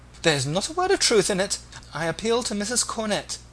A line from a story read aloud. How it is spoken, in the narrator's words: exclaimed the discomfited Agnes